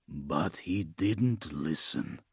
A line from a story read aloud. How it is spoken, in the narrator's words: he said softly